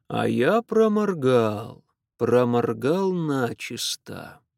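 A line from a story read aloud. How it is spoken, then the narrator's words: Thoughtful. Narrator (Russian): задумчиво произнес он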